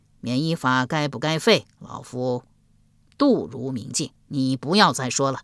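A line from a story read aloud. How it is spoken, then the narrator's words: Cold. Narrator (Chinese): 冷声说道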